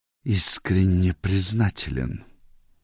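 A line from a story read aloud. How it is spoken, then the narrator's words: Through clenched teeth. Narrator (Russian): процедил сквозь зубы Пирен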